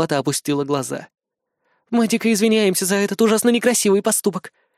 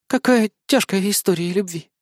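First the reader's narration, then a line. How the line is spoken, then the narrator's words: Breathy exhale. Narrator (Russian): выдохнула Кри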